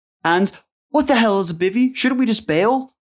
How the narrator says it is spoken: Christina screamed back

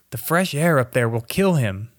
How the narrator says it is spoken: they cried

